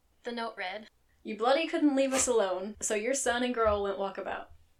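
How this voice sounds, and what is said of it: Southern American accent. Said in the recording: “I would love to say that I could do this in an Australian accent, but I cannot... my weird ass southern thing that I got going on”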